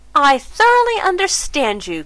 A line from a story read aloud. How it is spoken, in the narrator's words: cried Mrs